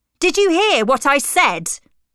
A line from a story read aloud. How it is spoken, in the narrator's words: he shouted angrily